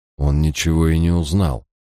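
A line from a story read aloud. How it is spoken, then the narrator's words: Uncertain objection. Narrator (Russian): неуверенно возразил я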